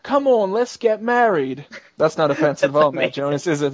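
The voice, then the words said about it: Put-on British accent. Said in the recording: “That's my British accent. Was it good?”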